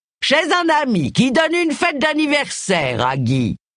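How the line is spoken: Booming male voice. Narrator (French): répondit-il d'une voix retentissante

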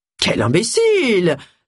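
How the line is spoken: Exclaiming. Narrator (French): s'exclama Mr

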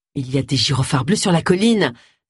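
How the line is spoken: Exclaiming. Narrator (French): s'exclama Agatha

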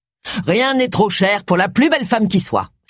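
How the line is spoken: Thunderous exclamation. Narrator (French): s'exclama son mari d'une voix tonitruante

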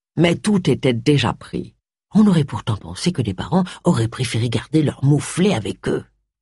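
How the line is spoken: Murmured. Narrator (French): murmura Charles

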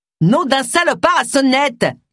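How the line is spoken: Shouting. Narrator (French): leur cria-t-elle

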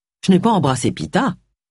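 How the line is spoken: Plain. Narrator (French): dit-il

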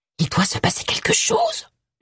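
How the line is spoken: Whispering. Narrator (French): chuchota Tony

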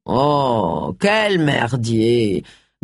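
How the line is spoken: Grumbled. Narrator (French): grogna Charles

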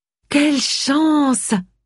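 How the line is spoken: Exclaiming. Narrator (French): s'exclama Olivia

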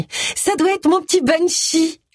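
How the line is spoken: Exclaimed. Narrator (French): s'écria Amy

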